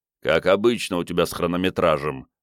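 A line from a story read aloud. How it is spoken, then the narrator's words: Grumbling. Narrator (Russian): проворчал грузчик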